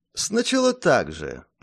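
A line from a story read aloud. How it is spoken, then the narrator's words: Thoughtful. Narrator (Russian): по-прежнему задумчиво ответил он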